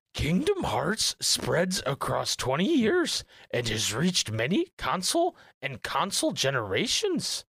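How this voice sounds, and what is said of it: Yoda character voice. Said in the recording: “in my Yoda voice”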